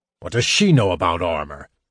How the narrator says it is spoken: Caramon grumbled

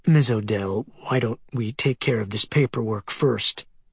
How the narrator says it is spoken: the mortician said

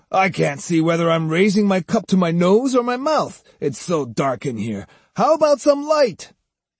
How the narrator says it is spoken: one of them bellowed

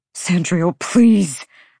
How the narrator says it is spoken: Hunt begged, the air ripping from his throat choked off his words

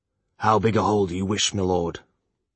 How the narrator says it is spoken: Longwick asked the prince solemnly

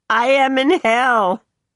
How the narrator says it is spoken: holler

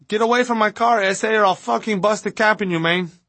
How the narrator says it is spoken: the driver, a male of obvious Hispanic descent, gives him a look of disgust and yells back

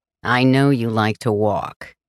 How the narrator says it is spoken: he growls

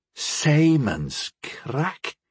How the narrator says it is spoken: Muluk panted

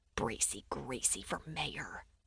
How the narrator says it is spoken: I whispered

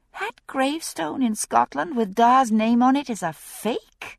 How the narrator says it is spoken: Her voice rose slightly with astonishment

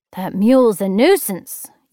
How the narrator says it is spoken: Eula grumbled

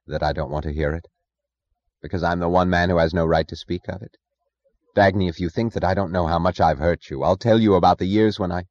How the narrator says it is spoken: Her voice flat, she said only

